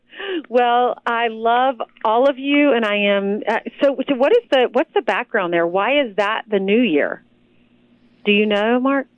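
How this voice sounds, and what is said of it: Southern US accent. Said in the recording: “doing it with a southern accent from South Carolina”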